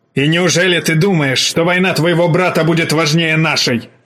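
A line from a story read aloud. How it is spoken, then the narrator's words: Old man barking. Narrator (Russian): рявкнул старик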